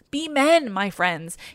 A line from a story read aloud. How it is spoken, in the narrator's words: he cried